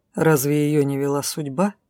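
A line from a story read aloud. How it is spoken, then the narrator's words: Calm, unembarrassed, not lowering tone. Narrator (Russian): спокойно ответил мужчина, ничуть не смутившись, и хоть бы тон сбавил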